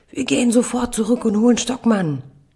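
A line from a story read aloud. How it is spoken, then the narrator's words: Tearful child yelling. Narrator (German): Die Augen meiner Tochter füllen sich mit Tränen, ihr Körper spannt sich an, sie brüllt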